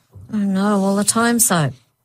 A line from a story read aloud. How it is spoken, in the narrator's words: Lisa moaned